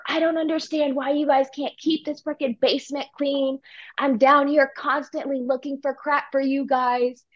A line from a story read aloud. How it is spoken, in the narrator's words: yelling at her